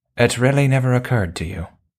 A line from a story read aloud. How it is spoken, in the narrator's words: Sedgwick says a little sadly